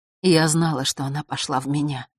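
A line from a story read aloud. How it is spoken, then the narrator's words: Whispering queen. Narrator (Russian): прошептала белая королева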